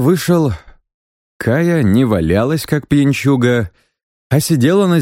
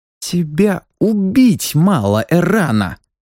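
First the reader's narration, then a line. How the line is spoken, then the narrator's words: Angry hiss. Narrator (Russian): зло прошипела она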